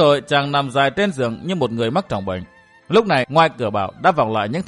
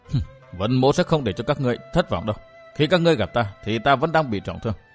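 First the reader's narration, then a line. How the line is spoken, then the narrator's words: Low sinister laughing mutter. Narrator (Vietnamese): chàng cất giọng cười âm trầm lẩm bẩm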